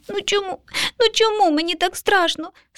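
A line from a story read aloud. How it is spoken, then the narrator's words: Child sobbing. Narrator (Ukrainian): схлипнув малюк, притулившись до неньки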